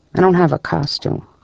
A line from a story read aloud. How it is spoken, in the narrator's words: Kaminsky murmured